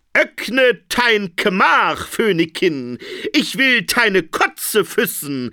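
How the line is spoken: Called out. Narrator (German): rief er, während er gegen die Tür hämmerte

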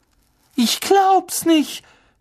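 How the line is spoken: Shouted. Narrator (German): schrie Hermine

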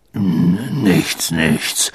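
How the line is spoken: Murmuring. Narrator (German): murmelte Hagrid

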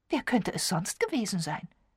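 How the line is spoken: Explaining. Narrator (German): erklärte Miss Marple

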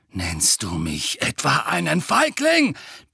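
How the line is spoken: Roaring. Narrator (German): brüllte Sirius

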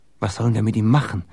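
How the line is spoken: Whispering. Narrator (German): flüsterte Jakob

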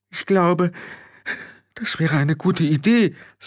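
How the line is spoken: Weak voice. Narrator (German): sagte schwach

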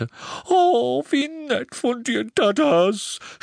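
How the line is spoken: Muffled sobbing. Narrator (German): schluchzte an seiner massigen Brust

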